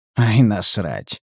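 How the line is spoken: Snort. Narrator (Russian): хмыкнул

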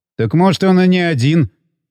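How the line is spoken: Wry snort. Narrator (Russian): хмыкнул Балаган

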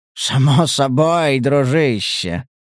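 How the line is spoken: Pleased purr. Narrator (Russian): промурлыкал охотник настолько довольным тоном

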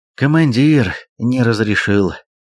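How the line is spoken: Sigh. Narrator (Russian): вздохнул Гораст

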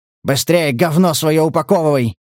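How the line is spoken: Barked. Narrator (Russian): рявкнул коллекционер

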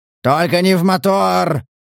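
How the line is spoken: Hunter yelling. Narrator (Russian): заорал охотник

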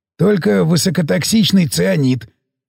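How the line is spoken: Helpful prompt. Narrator (Russian): подсказал Сиплый

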